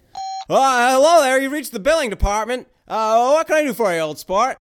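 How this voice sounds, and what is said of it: Imitates another person's voice. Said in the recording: “my Jimmy Stewart impression”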